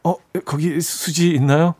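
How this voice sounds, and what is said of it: Trembling nervous schoolboy voice. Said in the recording (Korean): “약간 떨리는, 떨리는 그 남학생 목소리로”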